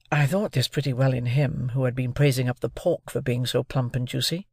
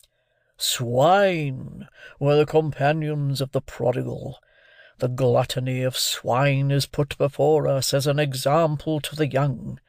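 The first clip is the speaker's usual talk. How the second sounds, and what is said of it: Very deep voice. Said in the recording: “in his deepest voice”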